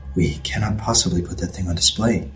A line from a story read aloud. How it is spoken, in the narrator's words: he whispered